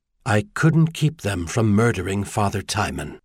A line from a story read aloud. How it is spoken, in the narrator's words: Merlin replied